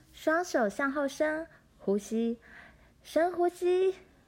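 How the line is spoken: Shout. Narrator (Chinese): 罗兰叫道

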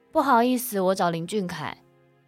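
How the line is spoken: Loud question. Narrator (Chinese): 淑芬大声的问着

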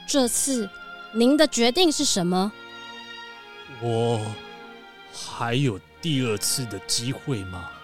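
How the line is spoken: Dry croaky old voice. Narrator (Chinese): 这个老先生啊，我们开玩笑的这个国王啊，他的声音干干的，卡卡的，好像这一辈子第一次开口说话一样

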